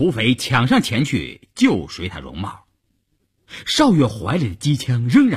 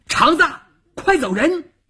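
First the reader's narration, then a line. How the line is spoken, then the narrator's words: Shouted. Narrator (Chinese): 邵月这么一喊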